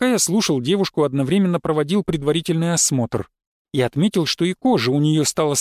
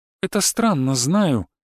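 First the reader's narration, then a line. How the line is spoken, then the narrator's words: Sad wry laugh. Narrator (Russian): грустно усмехнулась Светлана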